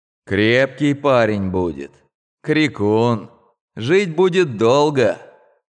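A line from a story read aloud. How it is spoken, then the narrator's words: Tired, smiling. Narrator (Russian): врач, устало улыбнувшись, сказал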